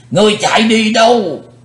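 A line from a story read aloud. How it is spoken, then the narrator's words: Loud roar. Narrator (Vietnamese): lão thủ tịch hộ pháp hắn gầm to lên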